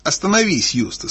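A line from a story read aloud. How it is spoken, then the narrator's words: Plain. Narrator (Russian): сказала Люся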